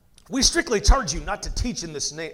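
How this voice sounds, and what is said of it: Put-on British accent. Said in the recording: “It's so hard not to do a British accent sometimes when I read for a Pharisee.”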